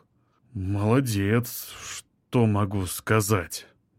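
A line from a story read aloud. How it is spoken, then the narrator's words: Drawling. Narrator (Russian): протянул Олег Викторович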